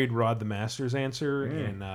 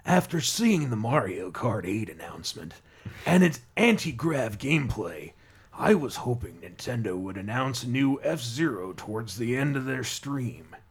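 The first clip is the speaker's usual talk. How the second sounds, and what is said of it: Bad Solid Snake voice impression. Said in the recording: “My terrible Solid Snake impression. ... This is a really bad David Hayter impression. ... Doesn't sound like Kiefer Sutherland at all.”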